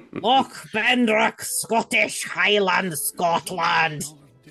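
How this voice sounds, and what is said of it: Poor Scottish accent, sounds German. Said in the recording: “that's more German than Scottish. ... I can't fucking do the accent.”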